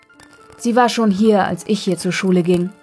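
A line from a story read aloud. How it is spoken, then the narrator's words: Plain father. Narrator (German): sagte Papa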